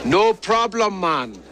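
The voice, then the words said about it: Jamaican accent. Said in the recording (Dutch): “met een Jamaicaans accent”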